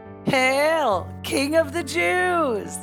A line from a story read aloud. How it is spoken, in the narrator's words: taunted